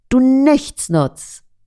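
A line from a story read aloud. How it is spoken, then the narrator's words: Angry shout. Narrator (German): Verärgert schreit der Junge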